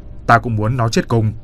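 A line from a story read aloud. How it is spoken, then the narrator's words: Loud angry bark. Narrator (Vietnamese): nạt lớn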